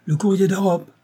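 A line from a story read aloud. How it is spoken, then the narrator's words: Shouted. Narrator (French): cria une voix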